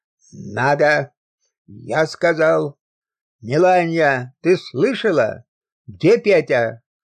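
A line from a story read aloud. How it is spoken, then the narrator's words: Drunken demanding shout. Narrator (Russian): Требовательно, с пьяным упорством закричал царский стольник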